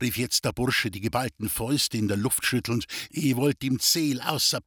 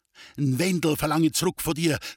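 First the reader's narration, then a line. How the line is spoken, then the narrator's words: Shouted. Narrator (German): schrie Friedel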